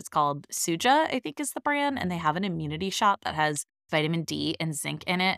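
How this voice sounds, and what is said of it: Slightly raspy sore-throat voice. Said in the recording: “I do have a little bit of a sore throat today. So hopefully I don't sound too raspy”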